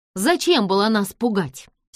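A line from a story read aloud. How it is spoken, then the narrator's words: Angry question. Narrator (Russian): сердито спросила Джордж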